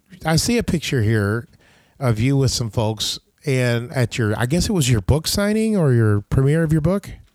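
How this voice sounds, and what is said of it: Voice in bad shape today. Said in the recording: “my voice is so bad today”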